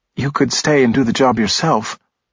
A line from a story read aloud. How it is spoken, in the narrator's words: Blaze said sadly